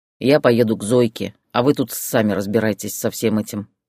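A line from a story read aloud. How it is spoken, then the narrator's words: Angry. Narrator (Russian): сердито ответил Виктор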